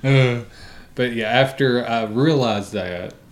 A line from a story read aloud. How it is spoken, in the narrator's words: I laughed